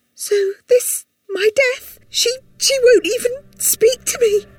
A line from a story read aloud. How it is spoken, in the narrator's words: Sandy thought hysterically